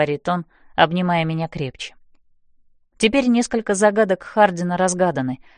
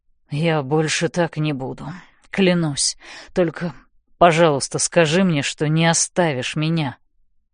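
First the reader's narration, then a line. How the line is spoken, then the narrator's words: Mumbling. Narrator (Russian): бормочет он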